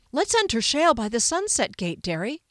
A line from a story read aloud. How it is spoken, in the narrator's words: he suggested excitedly